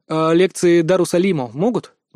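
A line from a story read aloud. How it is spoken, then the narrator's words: Neutral inquiry. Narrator (Russian): нейтральным тоном осведомился я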